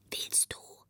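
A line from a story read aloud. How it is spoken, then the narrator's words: Very quiet question. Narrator (German): fragte … ganz leise eine Stimme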